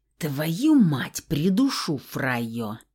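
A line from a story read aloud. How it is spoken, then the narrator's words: Vicious growl. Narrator (Russian): злобно прорычал Феникс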